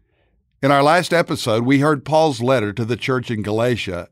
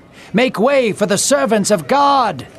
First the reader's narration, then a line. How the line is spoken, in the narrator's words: yelled even louder